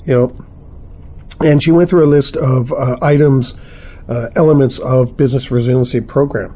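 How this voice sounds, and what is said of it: Strained, fading voice. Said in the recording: “I'm losing my voice today ... my throat's still dry”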